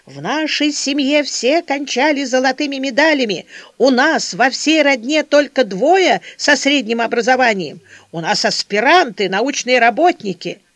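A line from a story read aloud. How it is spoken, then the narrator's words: Shouting. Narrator (Russian): Он кричал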